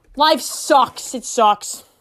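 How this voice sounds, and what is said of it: Put-on Boston accent. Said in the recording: “I'm going in with the Boston accent.”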